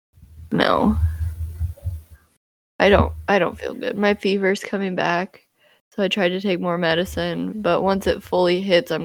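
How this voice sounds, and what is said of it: Sick, rough, messed-up voice. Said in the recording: “If I sound like absolute dog shit, it's because I feel like absolute dog shit... my voice is a little messed up right now... I have the flu.”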